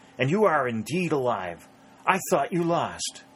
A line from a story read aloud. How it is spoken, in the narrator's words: he cried